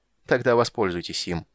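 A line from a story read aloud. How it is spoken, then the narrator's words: Cold interruption. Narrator (Russian): холодно перебил Рейстлин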